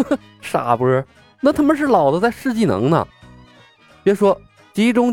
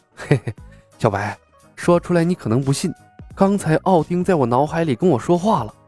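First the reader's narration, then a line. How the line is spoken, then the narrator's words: Embarrassed chuckling whisper. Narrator (Chinese): 苏汤老脸一红，嘿嘿一笑，凑近了李牧耳边，压低了声音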